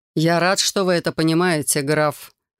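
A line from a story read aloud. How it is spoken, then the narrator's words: Wry snort. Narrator (Russian): хмыкнул Рион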